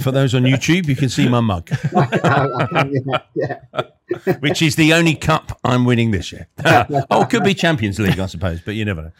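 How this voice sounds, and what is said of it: London English accent. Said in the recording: “you might hear my accent, which is sort of London”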